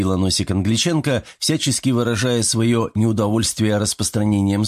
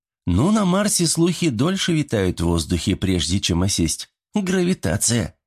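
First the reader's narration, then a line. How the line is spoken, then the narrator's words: Laughing. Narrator (Russian): Засмеялась Камацу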